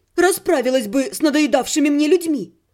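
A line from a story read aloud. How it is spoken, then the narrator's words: Snapped. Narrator (Russian): огрызнулась я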